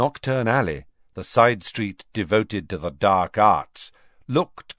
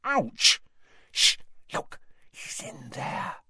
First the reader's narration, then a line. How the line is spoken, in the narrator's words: she breathed in Harry's ear